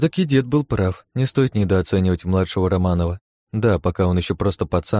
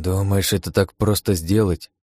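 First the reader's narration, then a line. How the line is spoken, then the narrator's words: Grumbled mutter. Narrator (Russian): буркнул Павел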